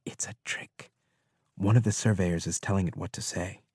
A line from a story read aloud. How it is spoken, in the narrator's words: one of the others whisper